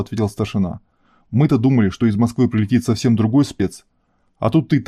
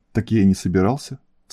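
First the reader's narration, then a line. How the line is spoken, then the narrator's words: Calm. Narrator (Russian): спокойно проговорил Серый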